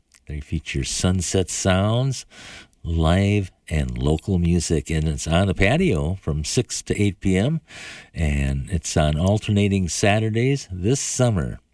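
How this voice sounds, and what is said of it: Polished public radio announcer voice. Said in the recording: “What a great public radio voice.”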